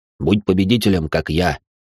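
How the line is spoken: Snorting. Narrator (Russian): Фыркнула Машка

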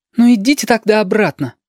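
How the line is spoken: Bold child's retort. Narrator (Russian): смело огрызнулся сопливик

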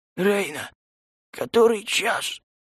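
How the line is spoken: Hoarse after throat-clearing. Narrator (Russian): Прочистив горло прохрипел

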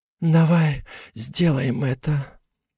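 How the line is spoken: Husky. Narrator (Russian): хрипло произносит

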